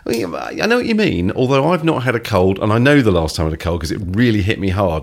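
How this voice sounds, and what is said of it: Sick-sounding voice. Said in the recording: “as you can probably tell from my voice and my coughing, I'm still not perfectly over a cold.”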